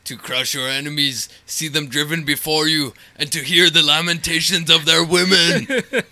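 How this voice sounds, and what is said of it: Guttural Arnold Schwarzenegger impression. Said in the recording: “That's a pretty good impression. ... making guttural sounds. ... Arnold. ... You two are pretty much Arnold”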